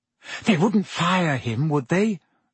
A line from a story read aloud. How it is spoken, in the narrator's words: said Hermione anxiously